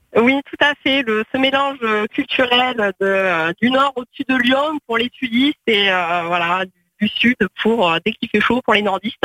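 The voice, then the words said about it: Slight southern French accent. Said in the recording (French): “Petit accent de Nîmes... peut-être accent du sud”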